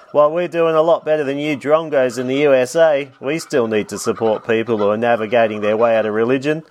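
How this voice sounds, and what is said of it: Australian accent. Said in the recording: “an old bonzer Aussie accent”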